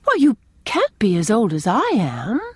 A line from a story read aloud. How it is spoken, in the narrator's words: exclaimed Anne